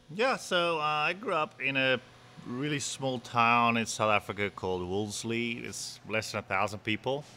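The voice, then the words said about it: Non-local accent. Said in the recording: “if people haven't figured out from your accent yet, you're not from Milton”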